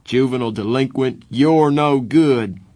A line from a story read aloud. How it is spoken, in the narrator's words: Darry shouted